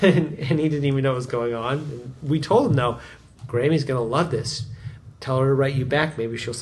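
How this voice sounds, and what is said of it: Usual voice. Nothing is said of it.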